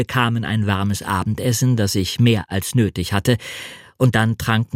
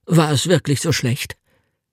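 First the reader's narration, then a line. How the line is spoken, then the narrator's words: Anxious question. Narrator (German): fragte er ängstlich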